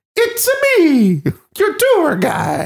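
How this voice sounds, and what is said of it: Exaggerated Mario-style Italian accent. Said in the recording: “an Italian accent that ... not exaggerating. She sounds like Mario.”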